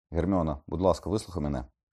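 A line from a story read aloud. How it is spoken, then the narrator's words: Exclaimed. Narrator (Ukrainian): вигукнув Люпен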